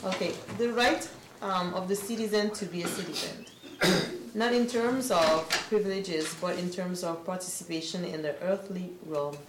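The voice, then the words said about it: Speaker's own foreign accent. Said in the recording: “Please bear with my accent.”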